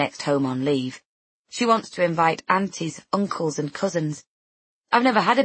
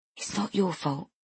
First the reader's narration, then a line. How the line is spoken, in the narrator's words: he whispers